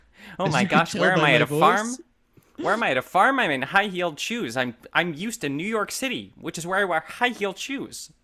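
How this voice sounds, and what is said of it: Imitates another person's voice. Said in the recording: “as you can hear by my voice, this is Jennifer Aniston ... that's exactly Jennifer Aniston”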